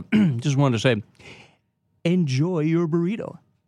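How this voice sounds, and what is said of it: Rick Dees radio DJ impression. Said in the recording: “with your Rick Dees impersonation ... could you give us a Rick Dees enjoy your burrito?”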